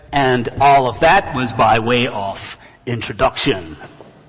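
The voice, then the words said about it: Put-on American accent. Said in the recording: “That's my American accent”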